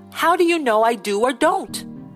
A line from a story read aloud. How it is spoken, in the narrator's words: Angrily, he demanded